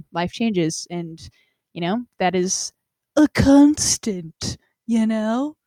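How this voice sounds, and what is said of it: Silly mocking voice. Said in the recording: “I couldn't say it in a normal voice. I had to say it like an idiot... I'm doing a mocking voice”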